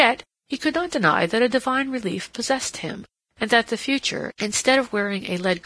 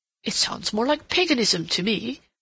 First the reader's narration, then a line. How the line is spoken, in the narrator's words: Rodney groaned